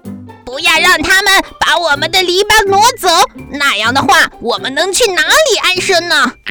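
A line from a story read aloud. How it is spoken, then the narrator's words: Shouting. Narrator (Chinese): 刺猬们喊着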